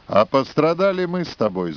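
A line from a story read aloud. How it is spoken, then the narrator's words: Laughing. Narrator (Russian): засмеялся Ростом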